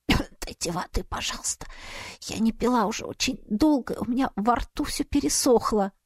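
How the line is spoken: Hoarse croak. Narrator (Russian): Прочистив горло, я прохрипела

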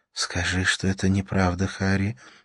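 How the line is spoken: Whisper. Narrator (Russian): прошептала она

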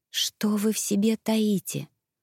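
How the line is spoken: Whispering. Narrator (Russian): прошептала я

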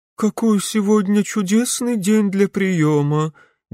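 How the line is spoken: Lifeless mutter. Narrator (Russian): безжизненным голосом пробормотала Вильгельмина Клопс

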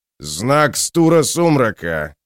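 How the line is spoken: Big man's proud growl. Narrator (Russian): прорычал здоровяк с ноткой гордости в голосе

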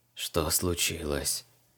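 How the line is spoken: Barely audible whisper. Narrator (Russian): еле слышным шепотом произнес дух

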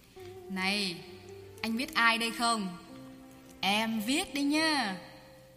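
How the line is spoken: Excited, confident woman. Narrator (Vietnamese): nàng nói bằng giọng vừa hớn hở vừa tự tin

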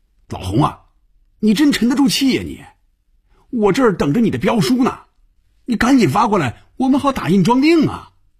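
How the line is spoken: Loud shouting. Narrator (Chinese): 范宇宙冲红军大声喊着，连坐在对面的菲比都能听得见

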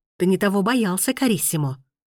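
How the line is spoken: Irritated exclamation. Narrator (Russian): Раздраженно воскликнул Лоренцо

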